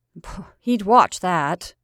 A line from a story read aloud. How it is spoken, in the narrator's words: said the mother bitterly